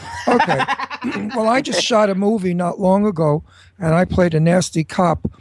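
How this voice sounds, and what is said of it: Brooklyn accent. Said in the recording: “Being from Brooklyn and having an accent such”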